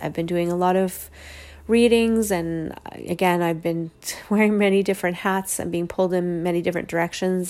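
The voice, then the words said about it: Weak, tired-sounding voice. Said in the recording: “I can even tell in my voice right now that it just seems weak”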